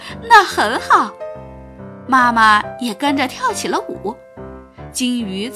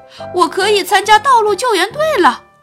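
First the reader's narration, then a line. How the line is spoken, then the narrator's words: Shout. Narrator (Chinese): 他喊道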